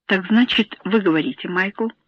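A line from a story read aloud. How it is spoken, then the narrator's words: Calm tone. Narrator (Russian): спокойным тоном сказал Гарт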